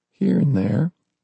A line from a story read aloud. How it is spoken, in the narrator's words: Ernie whispered